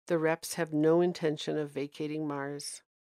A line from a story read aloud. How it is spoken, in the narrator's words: added with a heavy sigh